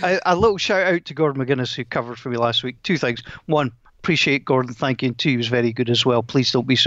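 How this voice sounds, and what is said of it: Usual voice. Nothing is said of it.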